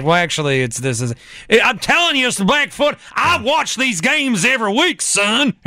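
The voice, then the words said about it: Put-on Southern accent. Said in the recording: “how did you get a southern accent living in Wausau?”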